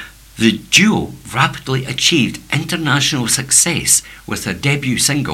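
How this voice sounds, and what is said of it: Usual voice. Nothing is said of it.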